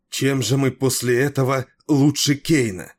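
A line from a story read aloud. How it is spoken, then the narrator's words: Exclaiming. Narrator (Russian): воскликнула она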